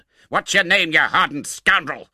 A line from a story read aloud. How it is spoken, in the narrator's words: thundered Mr